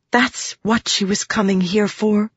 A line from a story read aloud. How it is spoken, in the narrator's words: Shallan whispered